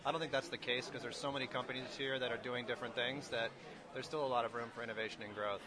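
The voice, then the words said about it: Scottish accent. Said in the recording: “the lovely Scottish accent. The only Scottish accent I've heard here”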